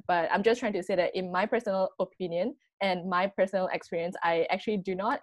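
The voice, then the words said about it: Strong Asian accent in English. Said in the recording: “are you from Malaysia? ... I do actually have quite a strong like Asian accent”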